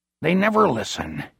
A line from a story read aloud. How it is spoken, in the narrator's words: Bernie mutters to himself